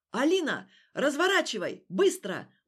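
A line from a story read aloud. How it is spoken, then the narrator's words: Hurried shout. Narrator (Russian): успел крикнуть ее спасатель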